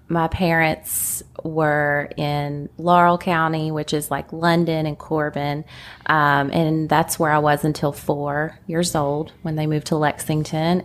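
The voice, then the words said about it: Country-sounding Kentucky accent. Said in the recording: “A lot of people hear the countryness in my accent.”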